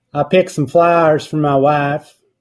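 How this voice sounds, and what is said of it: Imitated Southern US accent, slurred. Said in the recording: “slurring the syllables together ... common in the Southern dialect ... let me try to imitate it ... I don't really have a Southern accent ... it just slurs together”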